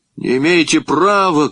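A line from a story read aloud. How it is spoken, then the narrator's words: Shout. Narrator (Russian): крикнул я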